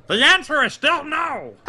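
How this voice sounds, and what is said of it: Poor cartoon villain voice impression. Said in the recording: “That was a horrible impression.”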